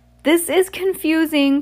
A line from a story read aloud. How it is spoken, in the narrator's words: cried Ameros